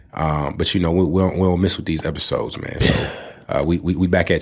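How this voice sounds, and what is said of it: Voice sounds off from illness. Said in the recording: “My voice is a little off, man. I was sick a little earlier this week.”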